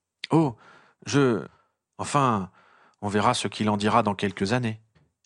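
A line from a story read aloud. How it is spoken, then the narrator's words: Stammered. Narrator (French): balbutia Harry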